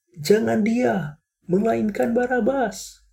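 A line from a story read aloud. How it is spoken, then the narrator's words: Crowd shouting. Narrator (Indonesian): Mereka pun berteriak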